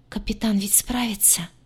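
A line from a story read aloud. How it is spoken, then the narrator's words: Hopeful whisper. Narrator (Russian): с надеждой прошептала лагартианка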